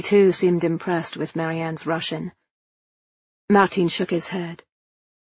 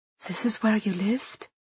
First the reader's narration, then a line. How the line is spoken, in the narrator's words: Liesl whispered